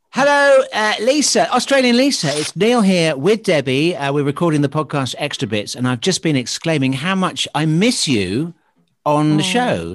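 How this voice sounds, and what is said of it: Put-on radio presenter voice. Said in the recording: “why are you using your radio voice to leave a personal message to Lisa? She'll go, oh, you did your radio voice”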